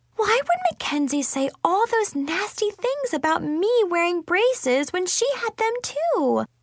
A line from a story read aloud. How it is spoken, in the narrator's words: Chloe exclaimed